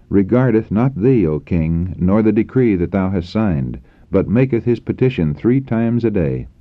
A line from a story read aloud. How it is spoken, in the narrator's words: they exclaimed